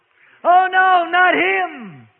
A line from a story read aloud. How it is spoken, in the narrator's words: cried the devil in anguish